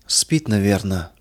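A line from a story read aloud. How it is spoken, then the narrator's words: Whispered, old woman. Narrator (Russian): прошептала старушка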